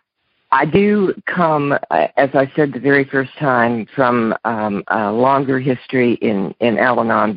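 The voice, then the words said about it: Strained, fading voice. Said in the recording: “My voice is going away, so I'm going to try to get through this as quickly as possible before I lose it”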